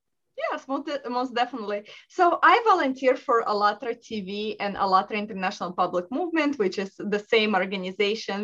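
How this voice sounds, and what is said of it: Russian accent. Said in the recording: “I was born in Russia. ... Russia. Can you hear the accent? It's so beautiful.”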